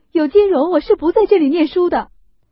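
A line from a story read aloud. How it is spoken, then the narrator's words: Crying. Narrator (Chinese): 秦钟哭道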